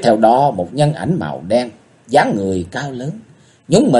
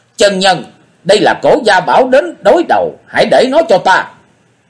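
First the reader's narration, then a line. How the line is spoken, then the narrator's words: Ringing shout from nearby. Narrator (Vietnamese): từ giải phòng gần đó có tiếng thét vang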